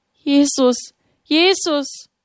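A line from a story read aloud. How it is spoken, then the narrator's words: Trembling cry. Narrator (German): Mit bebenden Lippen rief sie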